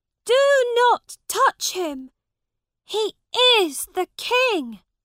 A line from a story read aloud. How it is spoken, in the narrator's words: Tom shouted